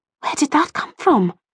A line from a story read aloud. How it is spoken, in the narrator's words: murmured